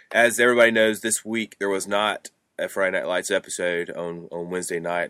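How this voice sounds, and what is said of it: Raspy, hoarse voice. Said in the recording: “I woke up with a couple of frogs in my throat, it sounds like, so if it's pretty raspy”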